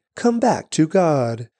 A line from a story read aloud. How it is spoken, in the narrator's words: we plead